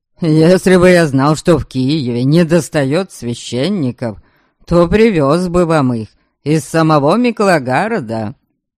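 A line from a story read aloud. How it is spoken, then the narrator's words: Mocking yet proud. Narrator (Russian): насмешливо ответил он, но в голосе его звучала неприкрытая гордость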